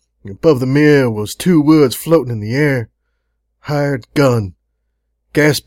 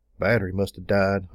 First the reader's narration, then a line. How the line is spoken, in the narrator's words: I muttered to myself